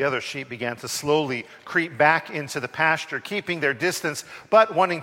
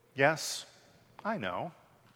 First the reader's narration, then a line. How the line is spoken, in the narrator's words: The sheep calmly, peacefully retorted